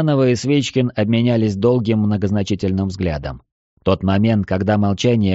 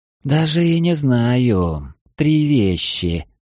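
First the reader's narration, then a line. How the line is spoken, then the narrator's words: Drawling. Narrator (Russian): протянула первая дева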